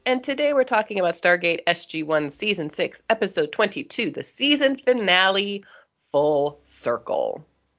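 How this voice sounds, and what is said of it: Voice sounds off from a cold. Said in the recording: “pardon my voice. I'm going through a bit of a cold right now. So if I sound a little weird”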